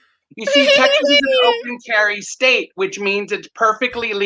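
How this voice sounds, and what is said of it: Usual voice. Nothing is said of it.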